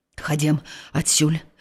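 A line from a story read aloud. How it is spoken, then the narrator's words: Old man's whisper. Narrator (Belarusian): прашаптаў стары пастух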